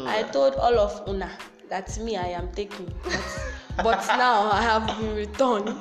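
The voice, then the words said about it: Fake Nigerian accent. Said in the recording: “My fake Nigerian accent”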